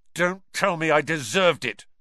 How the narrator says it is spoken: snapped Ron

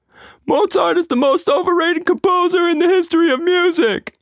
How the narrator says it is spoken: screeched

